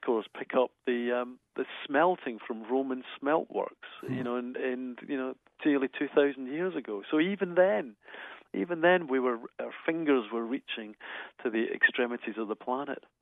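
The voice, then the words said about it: Scottish accent. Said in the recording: “Dr. Ian Stewart. He is a geologist, a Scottish geologist. If you've picked up on an accent there”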